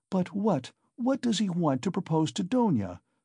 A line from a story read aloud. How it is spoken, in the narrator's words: cried Pulcheria Alexandrovna in a fright